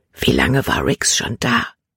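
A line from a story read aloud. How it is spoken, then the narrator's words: Whisper. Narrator (German): flüsterte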